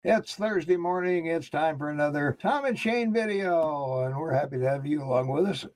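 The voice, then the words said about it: Hoarse, froggy morning voice. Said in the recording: “I got my morning throat going on ... It's my morning voice. ... Frog in the morning”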